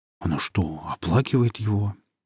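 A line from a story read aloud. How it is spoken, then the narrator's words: Puzzled mutter. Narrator (Russian): недоуменно пробормотал Власов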